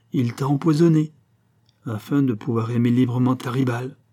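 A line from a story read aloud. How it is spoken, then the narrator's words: Muffled low voice. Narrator (French): fit-elle d'une voix sourde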